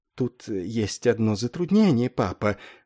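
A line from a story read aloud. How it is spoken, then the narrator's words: Timid. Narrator (Russian): робко выговорил он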